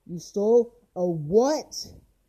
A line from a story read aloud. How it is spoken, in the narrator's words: shouted Johnson, screaming